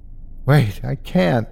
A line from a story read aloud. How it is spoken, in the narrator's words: I begged